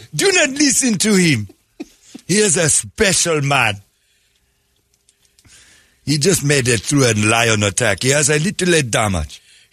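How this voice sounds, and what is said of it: Put-on Sudanese accent. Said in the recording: “I like your accent... Sudanese character”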